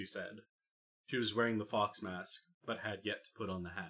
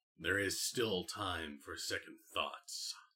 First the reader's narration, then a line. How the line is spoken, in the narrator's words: Charles said, his voice rough-edged